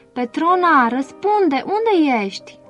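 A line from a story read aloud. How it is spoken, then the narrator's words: Shouted. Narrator (Romanian): a strigat Alvin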